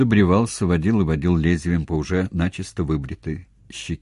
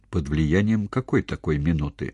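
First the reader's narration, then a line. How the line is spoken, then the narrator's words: Very quiet question. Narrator (Russian): совсем тихо осведомилась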